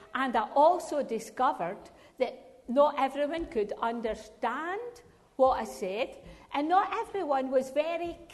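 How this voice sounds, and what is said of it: Scottish accent. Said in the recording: “that woman's got a funny accent ... a wee bit over Scottish”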